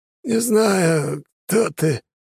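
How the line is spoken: Hoarse wheeze. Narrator (Russian): хрипло просипел тот

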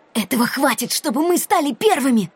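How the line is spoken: Whisper. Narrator (Russian): прошептал Рианон

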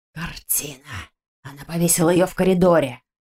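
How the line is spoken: Surprised hiss. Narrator (Russian): Удивленно прошипел его сообщник

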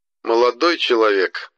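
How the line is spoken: Snide ghostly reply. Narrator (Russian): ехидно ответил призрак

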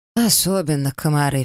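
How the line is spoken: Sighing. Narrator (Russian): вздохнула Диана

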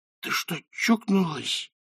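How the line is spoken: Hiss. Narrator (Russian): прошипел он

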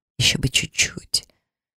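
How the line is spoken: Self-reproachful inner whisper. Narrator (Russian): прошептала я мысленно, кляня себя

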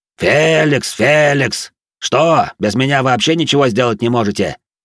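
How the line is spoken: Barked. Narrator (Russian): гаркнул он на работяг

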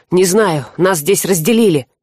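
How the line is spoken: Glum. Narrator (Russian): уныло сообщил вор

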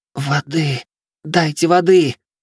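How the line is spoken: Hoarse wheeze. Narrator (Russian): просипела она

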